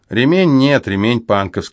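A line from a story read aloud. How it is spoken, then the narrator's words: Plain. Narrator (Russian): сказал я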